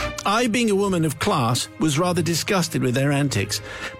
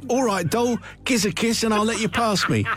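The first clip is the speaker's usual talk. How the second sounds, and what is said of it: Put-on Cockney accent. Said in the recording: “I'm going to do this as a Cockney accent”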